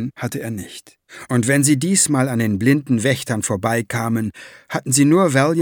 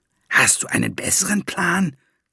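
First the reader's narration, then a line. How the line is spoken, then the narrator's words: Dwarf hissing. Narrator (German): zischte der Zwerg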